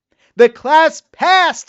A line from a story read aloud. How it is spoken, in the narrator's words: shouted Mrs